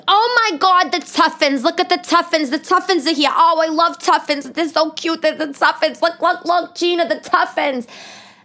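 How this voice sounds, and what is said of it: Thick New York accent. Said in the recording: “she had a thick New York accent”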